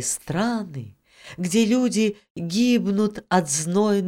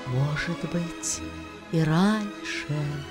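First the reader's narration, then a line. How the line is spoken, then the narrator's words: Whispering air spirit. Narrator (Russian): прошептала одна из дочерей воздуха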